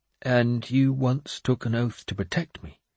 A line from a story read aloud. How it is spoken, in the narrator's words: he said quietly